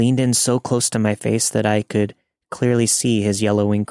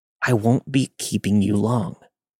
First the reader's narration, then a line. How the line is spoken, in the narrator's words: he hissed in my face